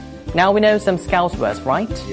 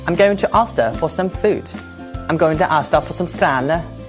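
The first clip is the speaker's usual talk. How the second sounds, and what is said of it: Imperfect put-on Liverpool Scouse accent. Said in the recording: “my Liverpudlian accent is not perfect”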